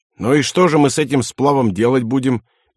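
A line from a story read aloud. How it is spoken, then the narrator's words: Angry. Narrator (Russian): сердито сказал Антон Захарович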